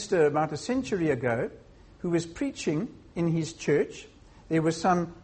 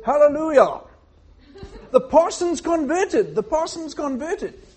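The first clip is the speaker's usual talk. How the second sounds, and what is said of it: Put-on British accent. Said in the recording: “Now I'll try and do it in a British accent”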